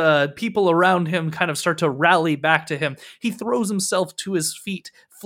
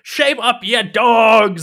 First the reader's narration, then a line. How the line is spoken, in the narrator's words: Punketta pulls himself to his feet, shouting